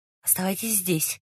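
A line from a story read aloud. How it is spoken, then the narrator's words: Whisper. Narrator (Russian): шепнул Раст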